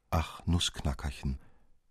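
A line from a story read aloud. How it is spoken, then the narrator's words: Very quiet. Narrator (German): sprach sie sehr leise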